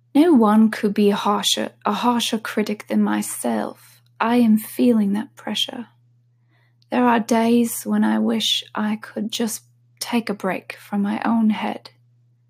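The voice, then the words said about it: Attempted British accent, possibly Australian-sounding. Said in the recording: “I wish I could actually do this in her accent, British accent... Maybe that sounded Australian.”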